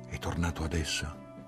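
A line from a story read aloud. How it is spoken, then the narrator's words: Quiet question. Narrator (Italian): chiesi sottovoce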